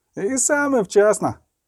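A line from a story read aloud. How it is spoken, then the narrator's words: Shouted. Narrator (Ukrainian): крикнув любисток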